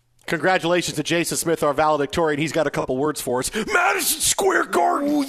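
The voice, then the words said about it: Punch-drunk Macho Man impression. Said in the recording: “That's Macho Man. ... That's a great Macho Man impression. ... That was a punch drunk Macho Man.”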